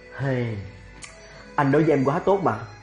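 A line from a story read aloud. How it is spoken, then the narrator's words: Sighing. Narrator (Vietnamese): Lan Húc thở dài nói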